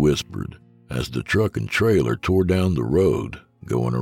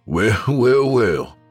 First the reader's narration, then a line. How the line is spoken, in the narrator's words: he said with a slight laugh